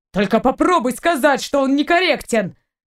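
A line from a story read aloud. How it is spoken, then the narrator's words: Shouting. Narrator (Russian): прокричал Торн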